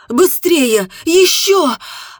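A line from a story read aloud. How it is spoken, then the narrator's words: Shouted in near-orgasm. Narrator (Russian): закричала, почувствовав приближение оргазма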